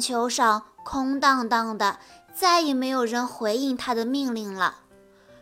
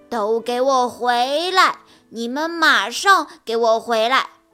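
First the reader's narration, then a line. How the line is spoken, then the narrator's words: Loud, bossy shout. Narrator (Chinese): 他依然摆着架子，大声吼道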